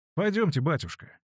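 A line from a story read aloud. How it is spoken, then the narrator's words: Plain. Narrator (Russian): ответил Петр Степаныч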